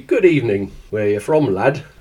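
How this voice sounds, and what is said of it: Poor put-on Yorkshire accent. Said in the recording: “Was that an attempt at a Yorkshire accent? ... That was a terrible attempt at a Yorkshire accent.”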